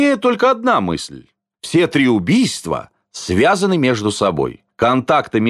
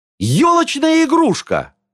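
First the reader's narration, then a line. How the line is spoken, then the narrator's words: Loud exclamation. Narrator (Russian): воскликнула Майя так громко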